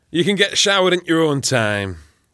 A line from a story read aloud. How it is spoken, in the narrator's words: Ken grunted